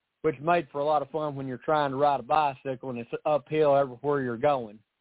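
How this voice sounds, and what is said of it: Tennessee Southern American accent. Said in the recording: “this is the way I talk on a normal day. So not much I can do about the accent ... born and raised in Tennessee”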